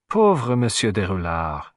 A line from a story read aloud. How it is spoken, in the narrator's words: he sighed